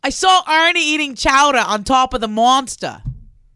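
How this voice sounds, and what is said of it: Put-on Boston accent. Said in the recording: “Can you talk in a Boston accent? ... That's better than I'll do.”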